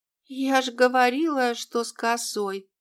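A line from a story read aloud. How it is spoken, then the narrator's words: Whispering from a corner. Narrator (Russian): прошептала мистификантка из угла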